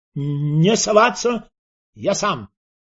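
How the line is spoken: Shout. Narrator (Russian): крикнул Фондорин

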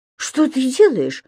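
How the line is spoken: Frightened exclamation. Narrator (Russian): испуганно воскликнул господин Пепперминт

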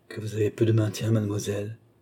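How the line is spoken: Murmured. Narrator (French): murmura Madame l'étiquette

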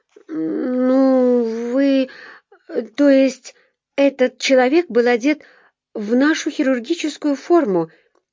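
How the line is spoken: Stammering young woman. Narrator (Russian): Девушка начала запинаться

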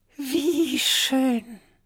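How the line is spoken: Old turtle sighing. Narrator (German): seufzt die alte Schildkröte

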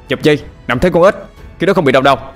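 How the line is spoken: Loud shout. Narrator (Vietnamese): anh Hùng quát lớn

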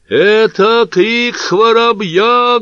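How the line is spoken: Loud exhaled exclamation. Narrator (Russian): громко выдохнул

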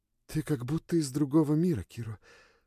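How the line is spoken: Tense sigh. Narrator (Russian): напряженно вздохнула Энио

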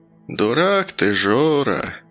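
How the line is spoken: Sudden indifferent creaky voice. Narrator (Russian): Вдруг равнодушно проскрипел Гедиминов

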